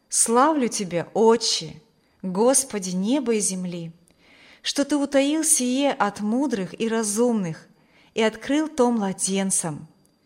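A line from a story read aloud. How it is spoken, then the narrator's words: Plain. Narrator (Russian): говорит Иисус Христос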